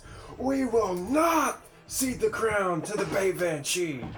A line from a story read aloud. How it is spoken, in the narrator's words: Grayson shouts